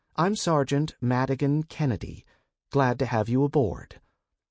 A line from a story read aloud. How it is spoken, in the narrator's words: began in a conversational tone